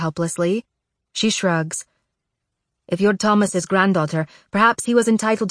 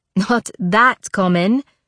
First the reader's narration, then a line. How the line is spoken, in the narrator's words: Zofia laughs